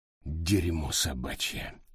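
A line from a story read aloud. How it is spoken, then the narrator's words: Muttering. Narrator (Russian): пробормотал он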